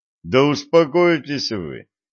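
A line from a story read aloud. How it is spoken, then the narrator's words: Laughing young man. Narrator (Russian): рассмеялся юноша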